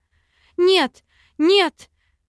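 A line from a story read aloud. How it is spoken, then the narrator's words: Screaming at full strength. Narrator (Russian): Кричала, что есть мочи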